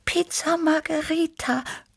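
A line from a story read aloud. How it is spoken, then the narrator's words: Purred. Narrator (German): schnurrte Tibi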